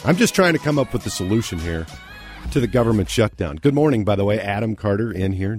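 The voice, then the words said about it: Hoarse, froggy voice. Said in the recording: “you can hear in my voice. I've got a little froggy voice.”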